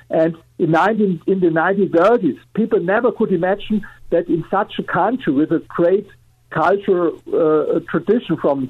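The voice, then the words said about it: German accent. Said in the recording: “I'm coming from Germany, as you're here with my accent.”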